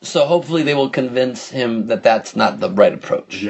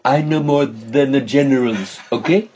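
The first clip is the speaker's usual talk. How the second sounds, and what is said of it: Donald Trump impression. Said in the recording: “Your fucking Donald Trump impression, A, is very good. ... so authentic to you ... Somebody told me that he sounds Indian”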